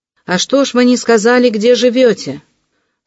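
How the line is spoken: Shouted after someone. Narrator (Russian): спохватился и закричал ему вдогонку Венчанинов

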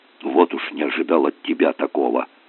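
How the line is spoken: Indignant whisper. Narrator (Russian): шепотом возмутился Федя

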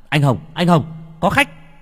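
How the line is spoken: Yelling. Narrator (Vietnamese): Bằng la lên

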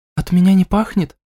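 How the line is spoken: Barely audible, shy. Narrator (Russian): произнесла она еле слышно со скромной улыбкой

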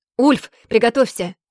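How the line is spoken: Shouted. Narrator (Russian): крикнула я

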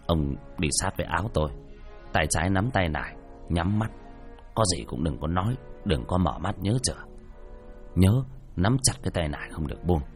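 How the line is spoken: Soft. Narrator (Vietnamese): Thầy nói khẽ

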